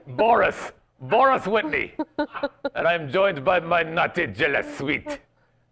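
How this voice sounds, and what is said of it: Bad put-on Russian accent. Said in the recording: “This is my Russian accent. ... That is the worst.”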